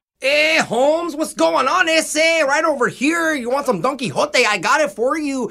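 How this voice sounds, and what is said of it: Put-on exaggerated Spanish-style accent. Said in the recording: “do that voice ... whatever that accent was that you were doing ... I thought it was pretty Spanish ... it's not really Spanish”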